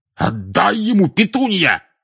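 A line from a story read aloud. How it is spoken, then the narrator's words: Shouting. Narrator (Russian): крикнул дядя Вернон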